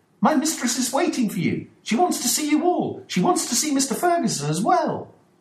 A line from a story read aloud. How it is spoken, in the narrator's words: Dolores exclaimed